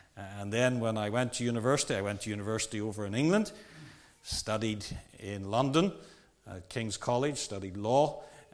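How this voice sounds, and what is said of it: Strange, mixed regional accent. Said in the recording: “why I have a strange accent”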